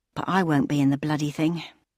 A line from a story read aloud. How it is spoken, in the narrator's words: muttered to herself